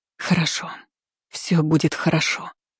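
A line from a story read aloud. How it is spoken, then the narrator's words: Barely audible soothing whisper. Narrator (Russian): прошептала едва слышно, успокаивая то ли Мари, то ли себя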